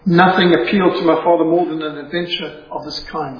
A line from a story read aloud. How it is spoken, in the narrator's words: said Edith